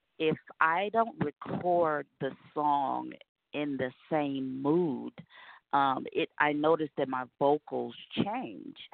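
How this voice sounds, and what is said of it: Congested voice from a cold. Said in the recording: “I have this cold”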